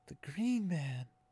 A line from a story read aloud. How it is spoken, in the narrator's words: Egwene whispered